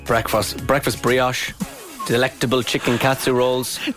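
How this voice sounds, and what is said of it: Put-on Spanish accent. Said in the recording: “You were still in your Spanish accent there.”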